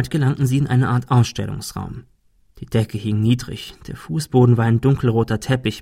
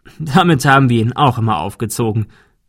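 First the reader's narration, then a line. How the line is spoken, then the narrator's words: Laughing. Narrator (German): der Notar lachte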